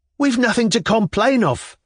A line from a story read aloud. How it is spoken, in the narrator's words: cried one of the malcontents in a half-strangled voice